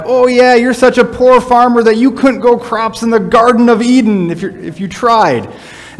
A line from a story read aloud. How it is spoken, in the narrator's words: would yell